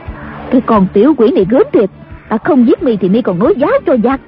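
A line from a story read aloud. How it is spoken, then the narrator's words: Angry. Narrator (Vietnamese): Đàm bà giận dữ nói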